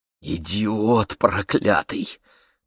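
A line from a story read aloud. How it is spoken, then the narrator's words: Young woman's hiss. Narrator (Russian): прошипела девушка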